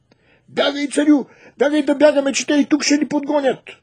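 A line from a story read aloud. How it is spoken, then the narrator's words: Shout. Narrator (Bulgarian): той извикал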